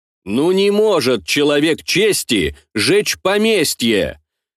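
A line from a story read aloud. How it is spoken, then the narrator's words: Loud, for others to hear. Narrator (Russian): Громко, чтобы слышали и наши люди, говорил Лавр Петрович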